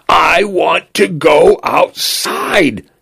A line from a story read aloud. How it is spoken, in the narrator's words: he screamed over and over again until his voice broke, until he was red in the face